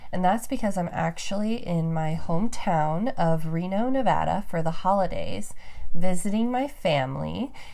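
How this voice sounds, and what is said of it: Congested, stuffed-up voice. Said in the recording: “I'm a little stuffed up. ... My voice sounds probably a little different than it normally does”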